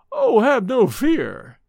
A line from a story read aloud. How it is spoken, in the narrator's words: he exclaimed with a sudden lighting up of his dark face